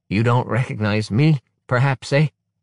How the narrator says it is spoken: someone says in a gurgling voice

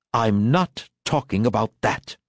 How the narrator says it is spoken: she interrupted crossly

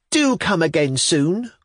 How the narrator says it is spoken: cried the girls

